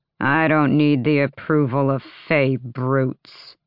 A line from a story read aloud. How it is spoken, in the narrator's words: the lord sneered